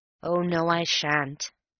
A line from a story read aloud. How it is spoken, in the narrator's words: said I gloomily